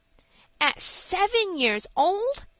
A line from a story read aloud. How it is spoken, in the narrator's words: exclaimed Frank in amazement